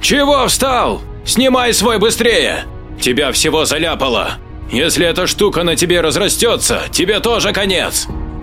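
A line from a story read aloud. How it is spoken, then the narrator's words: Shouted. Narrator (Russian): закричал Джек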